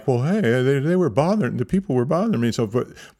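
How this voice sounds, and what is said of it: Good impression of Aaron. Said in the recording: “That's a really good Aaron impression,”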